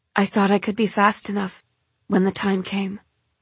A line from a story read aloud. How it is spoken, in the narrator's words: she says miserably